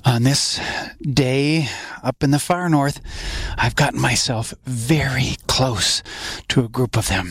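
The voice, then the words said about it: Soft, hushed voice. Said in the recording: “I'm talking so softly”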